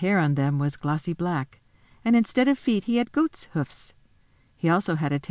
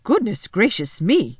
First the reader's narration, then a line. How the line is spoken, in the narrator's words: exclaimed the fawn